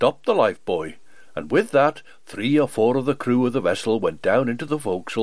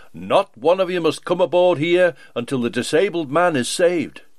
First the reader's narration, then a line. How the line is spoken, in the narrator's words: called out to the wreck